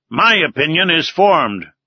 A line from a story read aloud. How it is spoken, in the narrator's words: replied Ned Land sharply